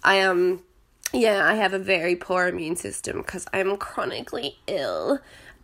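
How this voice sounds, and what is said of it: Crackly, sick-sounding voice. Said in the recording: “You can probably hear my voice is very crackly. Yes, I'm sick again... I have this cold, but it's more like the flu.”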